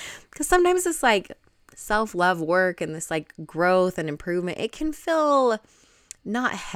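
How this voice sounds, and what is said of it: Usual voice. Nothing is said of it.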